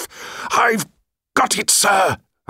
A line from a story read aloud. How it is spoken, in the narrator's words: I would shout